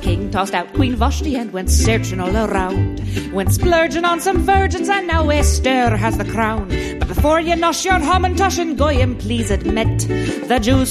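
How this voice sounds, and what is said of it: Irish drinking-song character voice. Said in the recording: “do the Bridget voice ... an Irish drinking song”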